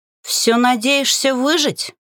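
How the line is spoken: Grumbling witch. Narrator (Russian): буркнула ведьма

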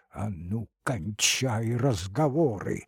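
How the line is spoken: Hoarse whisper. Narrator (Russian): сипло зашептал старшина

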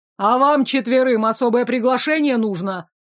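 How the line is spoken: Growling teacher. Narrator (Russian): рыкнул мускулистый учитель

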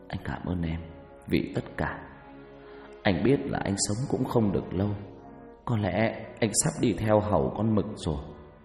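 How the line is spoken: Whispering. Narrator (Vietnamese): Phát thì thào

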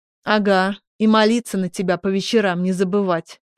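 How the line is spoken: Scoffing snort. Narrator (Russian): фыркнул друг

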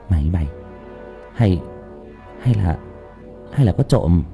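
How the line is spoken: Whisper. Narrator (Vietnamese): Tôi thì thầm với thằng Tuấn Anh

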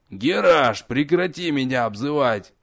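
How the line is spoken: Angry bark. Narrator (Russian): Сердито рявкнул бывший архимаг

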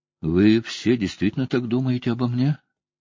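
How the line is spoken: Bewildered question. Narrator (Russian): как-то растерянно спросил

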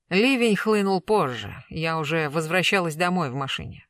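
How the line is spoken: Dry reply. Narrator (Russian): сухо ответила Раиса

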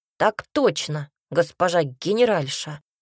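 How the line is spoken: Snorting. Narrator (Russian): фыркнул он

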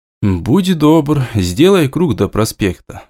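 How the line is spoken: Asked with a sigh. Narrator (Russian): вздохнув, попросил у него

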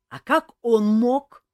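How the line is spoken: Loud reply. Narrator (Russian): так же громко отозвался Элмар

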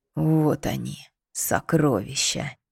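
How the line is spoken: Breathless exhale, awed. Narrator (Russian): Выдохнул монах

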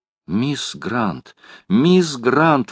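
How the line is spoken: Impulsive exclamation. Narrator (Russian): воскликнула леди Элен

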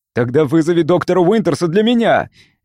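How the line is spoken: Barked. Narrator (Russian): рявкнул Андерхилл

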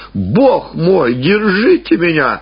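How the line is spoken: Loud laughter. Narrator (Russian): хохотала Марина

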